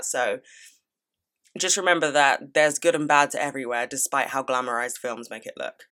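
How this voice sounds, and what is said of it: British accent. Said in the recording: “they love my accent ... you're just like the British people from the films”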